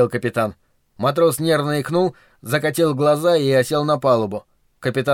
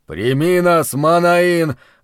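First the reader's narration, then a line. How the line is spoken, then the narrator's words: Breathed out. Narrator (Russian): выдохнул капитан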